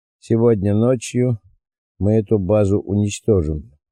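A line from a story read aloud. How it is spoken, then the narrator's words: Calm. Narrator (Russian): спокойно произнес Малькольм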